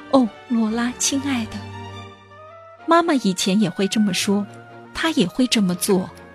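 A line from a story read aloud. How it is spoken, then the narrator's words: Soft gentle voice. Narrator (Chinese): 珍妮 轻声的对他说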